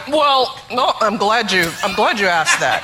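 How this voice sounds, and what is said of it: Imitates another person's voice. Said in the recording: “do an impression of your husband ... we all three of us have good impressions of Barack”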